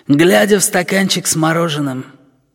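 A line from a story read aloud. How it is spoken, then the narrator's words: Husky tenor voice. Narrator (Russian): сообщает нам стервятник хрипловатым тенором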